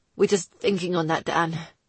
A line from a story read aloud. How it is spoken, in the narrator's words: he finally croaked out, sounding like a man who'd run 2 marathons and smoked a pack of cigars